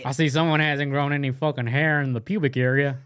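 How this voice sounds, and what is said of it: Imitates another person's voice. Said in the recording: “That sounds awfully a lot like Cooter's cousin. ... I've nailed that impression.”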